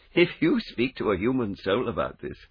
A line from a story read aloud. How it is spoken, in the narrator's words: added, giggling